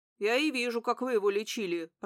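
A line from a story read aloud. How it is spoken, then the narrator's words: Doctor's grumble. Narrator (Russian): проворчал доктор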